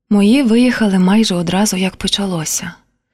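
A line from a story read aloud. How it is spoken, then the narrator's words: Said quietly. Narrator (Ukrainian): тихо сказала Поліна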